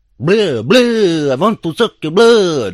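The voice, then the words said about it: Shabby Dracula impression. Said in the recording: “my very shabby impression at Dracula”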